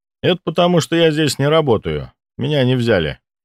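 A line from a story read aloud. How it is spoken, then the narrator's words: Wry snort. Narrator (Russian): хмыкнул я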